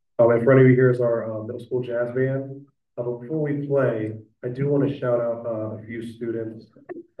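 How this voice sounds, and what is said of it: Hoarse, strained voice. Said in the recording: “excuse my voice. I'm losing my voice”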